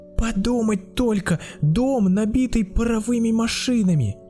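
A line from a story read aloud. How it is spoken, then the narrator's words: Child exclaiming. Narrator (Russian): воскликнул малыш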